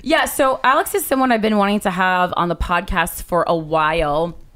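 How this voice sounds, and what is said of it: Low, husky travel-worn voice. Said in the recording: “This is my Indianapolis, just flew back in, sexy voice.”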